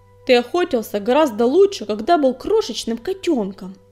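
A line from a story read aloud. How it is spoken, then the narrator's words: Reproachful exclamation. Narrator (Russian): с упреком воскликнул Огнегриф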